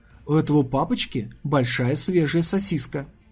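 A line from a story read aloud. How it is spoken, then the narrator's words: Quiet cheerful showing off. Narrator (Russian): Весело улыбнувшись, как будто рисуясь, он тихим голосом проговорил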